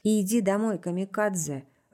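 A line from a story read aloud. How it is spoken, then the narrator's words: Even tone. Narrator (Russian): ровным тоном сказала я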